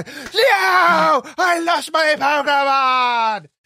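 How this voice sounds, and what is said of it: Screaming YouTuber impression. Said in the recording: “the screaming YouTuber ... It's a very good impression.”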